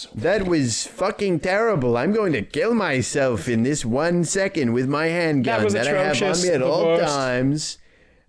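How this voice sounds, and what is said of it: Bad Donald Trump impression. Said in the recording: “I am the absolute worst Trump impressionist that there's ever been... my Trump impression... It sucks ass.”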